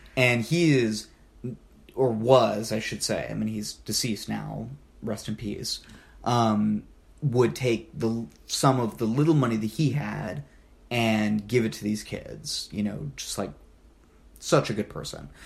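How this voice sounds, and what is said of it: Emotional, choked-up voice. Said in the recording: “I'm like getting emotional.”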